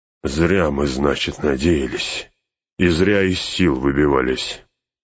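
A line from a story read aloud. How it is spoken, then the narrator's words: Grinding through teeth. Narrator (Russian): сквозь зубы проскрежетал Гимли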